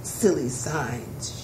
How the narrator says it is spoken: she muttered

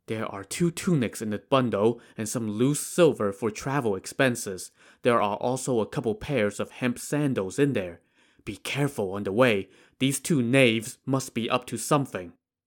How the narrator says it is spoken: he whispered to Wu Song

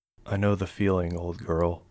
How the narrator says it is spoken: whispered

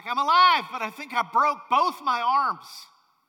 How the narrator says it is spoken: He shouts back

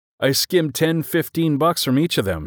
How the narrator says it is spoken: he said

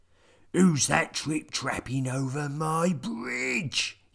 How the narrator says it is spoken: he bellowed

